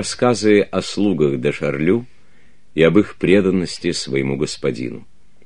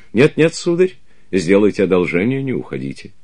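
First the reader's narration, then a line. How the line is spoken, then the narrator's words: Exclamation. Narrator (Russian): воскликнул камердинер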